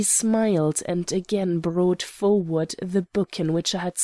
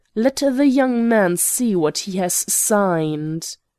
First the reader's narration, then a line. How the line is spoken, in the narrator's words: raising his voice, he shouted to the girl in the outer office